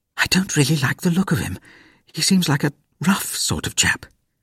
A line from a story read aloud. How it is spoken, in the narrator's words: Mother ... whispered